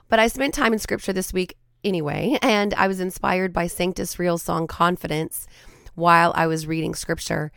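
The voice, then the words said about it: Raspy, under-the-weather voice. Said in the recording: “I am feeling a little under the weather, you might be able to hear it in my voice. I've got the raspy voice going today.”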